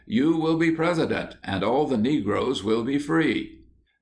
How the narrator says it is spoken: she became very much excited, and after various predictions exclaimed

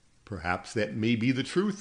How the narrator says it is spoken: I laughed

